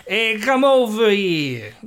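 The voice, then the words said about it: Brooklyn accent. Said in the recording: “He did like Brooklyn accent, you know.”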